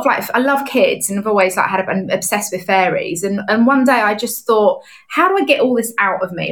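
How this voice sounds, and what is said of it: Strong, hard-to-understand accent. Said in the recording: “no one could understand me because of my accent”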